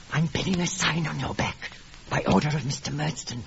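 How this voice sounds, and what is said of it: Speaking in a whisper. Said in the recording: “Mr. Creakle, who never spoke above a whisper”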